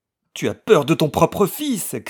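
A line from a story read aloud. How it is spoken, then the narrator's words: Woman shouting while struggling. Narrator (French): cria-t-elle en se débattant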